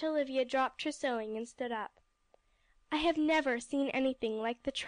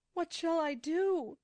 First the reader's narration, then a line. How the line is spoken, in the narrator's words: she cried in a terrible voice